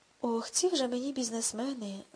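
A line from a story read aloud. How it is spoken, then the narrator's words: Sighing. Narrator (Ukrainian): скорошно зітхнув Гаррісон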